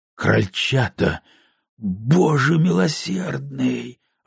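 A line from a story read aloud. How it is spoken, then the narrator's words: Breathless exhale. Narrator (Russian): выдохнул инспектор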